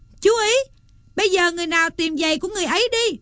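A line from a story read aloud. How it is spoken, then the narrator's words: Calling out. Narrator (Vietnamese): kêu lên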